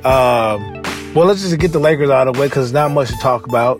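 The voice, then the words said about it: Slightly off voice from a cold. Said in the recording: “I'm getting over a cold. So, you know, my voice is a little off”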